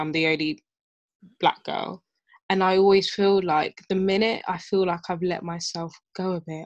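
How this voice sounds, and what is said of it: Cockney accent. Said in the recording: “always speak in a Cockney accent. And I think I use that as my relaxed tone”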